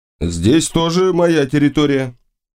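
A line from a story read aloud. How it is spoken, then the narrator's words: Proud, possessive voice. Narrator (Russian): ответил я владетельным голосом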